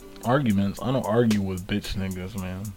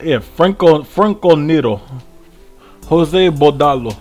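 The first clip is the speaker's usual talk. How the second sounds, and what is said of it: Pronounces names in a put-on accent. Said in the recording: “Why are you pronouncing it in the accent?”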